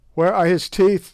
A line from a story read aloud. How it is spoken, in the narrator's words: they shouted